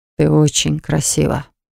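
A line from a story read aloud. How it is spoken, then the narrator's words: Hoarse voice. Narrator (Russian): произнес хрипло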